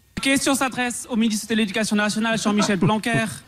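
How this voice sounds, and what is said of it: Strong Alsatian French accent. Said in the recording (French): “il peut parler comme ça ... malgré mon accent alsacien”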